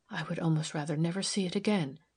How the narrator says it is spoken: she whispered

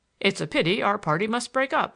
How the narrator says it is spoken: exclaimed my grandfather

